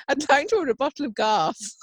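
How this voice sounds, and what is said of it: Posh, put-on telephone voice. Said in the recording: “I was using a bit of a telephone voice.”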